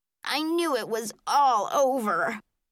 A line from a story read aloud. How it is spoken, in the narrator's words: Stuart told me in a horrified voice